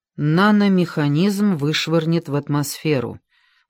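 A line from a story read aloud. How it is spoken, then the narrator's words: Gloomy. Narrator (Russian): мрачно ответил Уилбур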